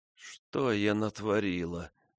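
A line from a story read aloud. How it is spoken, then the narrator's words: Moaning. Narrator (Russian): застонала Фрона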